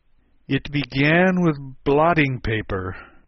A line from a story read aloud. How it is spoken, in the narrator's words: the knight answered with a groan